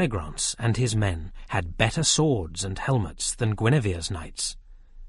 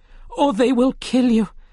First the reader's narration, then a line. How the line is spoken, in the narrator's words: cried Guinevere to her knights